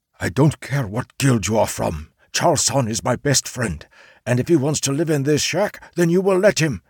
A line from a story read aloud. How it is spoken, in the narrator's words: the samurai hoarsely whispered